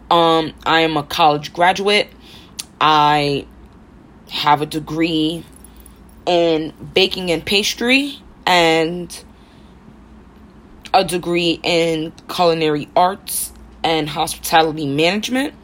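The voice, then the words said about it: Rough Harlem New York accent. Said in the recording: “born and raised in Harlem, hence this accent, hence why I sound so rough.”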